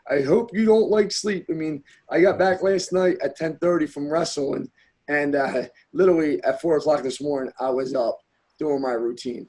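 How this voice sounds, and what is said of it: Scratchy, strained voice. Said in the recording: “my voice is scratchy from coaching all weekend.”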